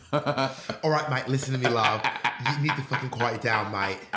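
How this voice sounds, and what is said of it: Put-on British accent. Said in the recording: “your British accent ... British accent face every time you do British accents”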